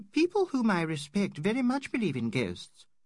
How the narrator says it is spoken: she said rather sharply

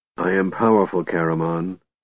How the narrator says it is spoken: Raistlin said, staring coldly

